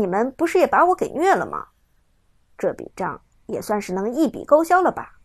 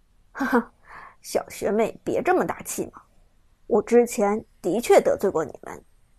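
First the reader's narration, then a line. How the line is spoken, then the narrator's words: Cold voice. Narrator (Chinese): 伍兹声音冰冷的说道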